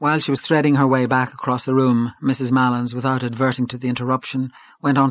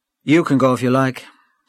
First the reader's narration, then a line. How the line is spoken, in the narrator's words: said Gabriel coldly